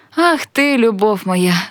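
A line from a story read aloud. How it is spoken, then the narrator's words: Laughing woman. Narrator (Ukrainian): засміялась вона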